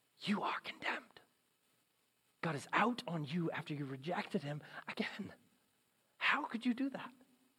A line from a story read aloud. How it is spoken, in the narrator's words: something whispers into our brains